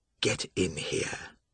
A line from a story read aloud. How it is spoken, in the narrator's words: Joshua York said in a cold whisper